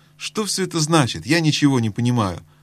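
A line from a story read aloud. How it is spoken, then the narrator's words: Exclaimed. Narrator (Russian): воскликнул Каспиан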